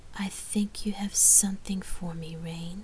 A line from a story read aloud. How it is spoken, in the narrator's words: Lark huskily insinuated